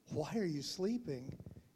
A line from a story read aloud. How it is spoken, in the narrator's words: he asked them